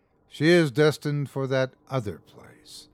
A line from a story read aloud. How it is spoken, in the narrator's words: he sighed